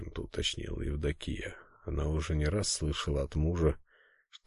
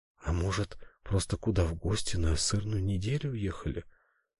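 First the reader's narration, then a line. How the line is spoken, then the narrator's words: Timid suggestion. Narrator (Russian): робко предположила княгиня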